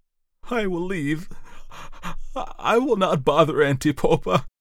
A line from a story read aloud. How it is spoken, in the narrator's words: the brewer man whimpered